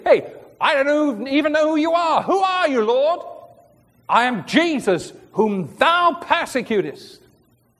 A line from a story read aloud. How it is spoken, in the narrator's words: he cried, he said